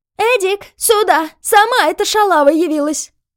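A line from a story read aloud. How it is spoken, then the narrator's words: Shrill shout. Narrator (Russian): визгливо закричала хозяйка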